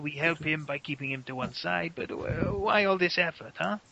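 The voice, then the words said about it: Put-on character accent. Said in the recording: “I don't know why I've got this stupid accent now.”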